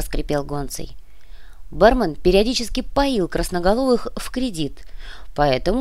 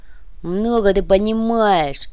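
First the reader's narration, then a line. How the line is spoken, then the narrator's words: Grumbled under breath. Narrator (Russian): пробурчал себе под нос Уйбуй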